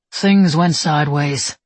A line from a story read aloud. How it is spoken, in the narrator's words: Kodak said wearily